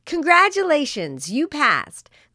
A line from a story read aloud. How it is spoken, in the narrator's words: Chloe shouted with joy